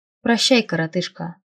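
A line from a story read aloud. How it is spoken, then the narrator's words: Snorting grunt. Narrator (Russian): хмыкнул Дитмар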